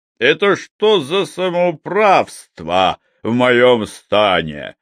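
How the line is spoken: Angry bark. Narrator (Russian): рявкнул он, глядя злыми глазами

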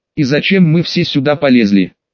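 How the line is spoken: Irritated. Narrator (Russian): раздраженно спросил Лаки

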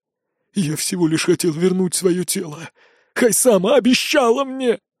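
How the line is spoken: Sobbing shout. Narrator (Russian): Сквозь всхлипы выкрикивает колдун

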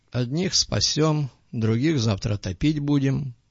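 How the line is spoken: Gloomy remark. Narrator (Russian): мрачно заметил док

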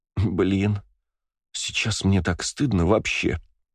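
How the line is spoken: Groaning. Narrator (Russian): простонала Валькирия

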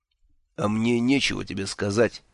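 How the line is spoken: Sad wry laugh. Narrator (Russian): печально усмехнулся он

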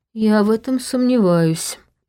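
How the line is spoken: Grumbling. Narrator (Russian): проворчал Женя

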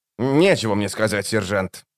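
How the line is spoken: Sullen grumble. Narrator (Russian): угрюмо проворчал он

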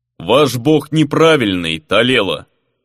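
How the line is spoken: Sudden booming giant's voice. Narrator (Russian): неожиданно прогудел великан

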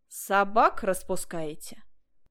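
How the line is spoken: Stern. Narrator (Russian): сказал между тем милиционер, строго приступая к делу

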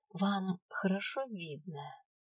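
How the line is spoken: Sympathetic question. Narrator (Russian): участливо уточнил Свен

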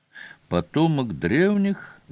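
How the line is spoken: Thoughtful drawl. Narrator (Russian): задумчиво протянула островитянка

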